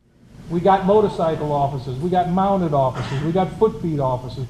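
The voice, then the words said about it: Impression of Spud McConnell. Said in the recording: “I almost sound like that fat guy on the TV ... his best impression of Spud McConnell”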